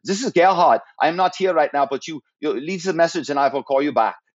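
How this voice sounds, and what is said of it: Imitated executive's accent on voicemail. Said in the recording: “I would hear his accent. I go, oh, I can do that accent.”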